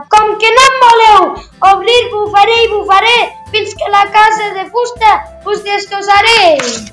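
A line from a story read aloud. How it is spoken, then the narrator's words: Furious wolf shouting. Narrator (Catalan): El llop, enfadadíssim, va cridar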